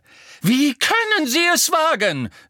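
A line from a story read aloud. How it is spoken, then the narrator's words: Called out while running. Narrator (German): rief die Gestalt im Laufen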